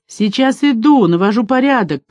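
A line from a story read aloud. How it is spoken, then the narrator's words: Shouted reply. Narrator (Russian): прокричал он в ответ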